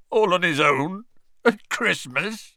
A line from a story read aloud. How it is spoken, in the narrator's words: choked Hagrid